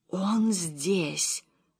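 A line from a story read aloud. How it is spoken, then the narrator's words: Whisper. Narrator (Russian): прошептала Гортензия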